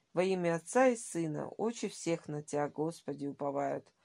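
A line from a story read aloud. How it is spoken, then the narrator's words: Hurried whisper. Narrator (Russian): шептал он суетливо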